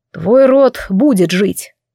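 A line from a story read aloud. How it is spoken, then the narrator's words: Sighing. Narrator (Russian): вздохнул Кайвин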